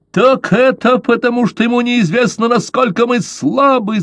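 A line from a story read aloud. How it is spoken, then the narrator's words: Shouting. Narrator (Russian): закричал Каузак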